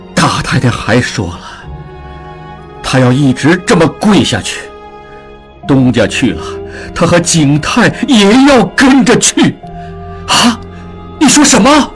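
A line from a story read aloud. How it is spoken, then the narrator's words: Through gritted teeth. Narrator (Chinese): 曹掌柜咬咬牙说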